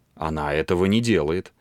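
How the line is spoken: Calm, proud young man. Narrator (Russian): спокойно ответил юноша с гордой уверенностью

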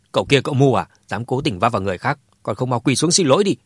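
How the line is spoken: Angry scolding shout. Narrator (Vietnamese): ông Mã đã tức giận quát Dương Chấn

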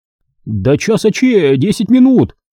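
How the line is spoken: Shouting. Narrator (Russian): крикнул Козубу Мешков

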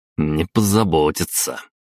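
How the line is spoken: Snorting. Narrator (Russian): хмыкнул я, так и не дождавшись ответа

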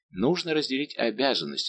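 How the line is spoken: Plain. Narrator (Russian): сказал Маликорн

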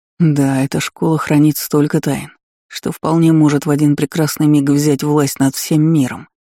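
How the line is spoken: Caustic mutter. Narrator (Russian): едко буркнул Наль

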